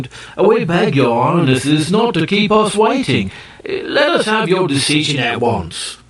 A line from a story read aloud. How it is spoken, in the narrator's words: the Ki Ki grew impatient and exclaimed